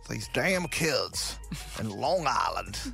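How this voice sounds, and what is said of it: Put-on Texas accent. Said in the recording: “That's a Mexican, that's a Texas accent there”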